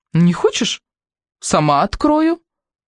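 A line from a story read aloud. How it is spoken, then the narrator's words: Impatient exclamation. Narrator (Russian): нетерпеливо воскликнула Примадонна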